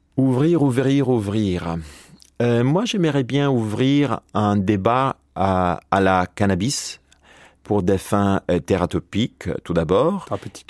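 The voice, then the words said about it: Italian accent speaking French. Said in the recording (French): “excusez-moi mon accent, je suis italien à la base, donc mon français a été appris lorsque j'étais un peu plus âgé”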